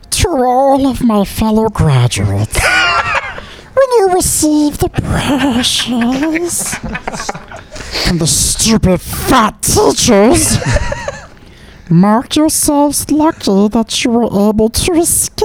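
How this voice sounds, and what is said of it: Gollum impression. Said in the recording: “could do a good Gollum voice ... That's strikingly good.”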